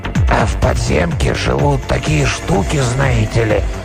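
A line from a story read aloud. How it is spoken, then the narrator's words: Hoarse, trembling voice from behind. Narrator (Russian): Голос, хриплый и дрожащий, прозвучал внезапно откуда-то сзади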